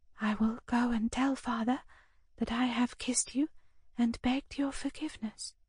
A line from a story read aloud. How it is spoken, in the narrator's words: she said softly, as though reflecting to herself